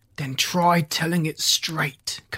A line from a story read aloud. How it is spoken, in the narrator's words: Kirk snapped